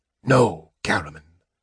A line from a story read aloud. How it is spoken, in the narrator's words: Raistlin whispered hoarsely, wringing his injured hand